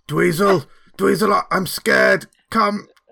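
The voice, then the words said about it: Strange, scary shouting voice. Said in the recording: “a shouting voice that goes a little bit like this ... There's a strange, scary voice.”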